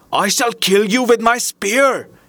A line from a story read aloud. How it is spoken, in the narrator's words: cried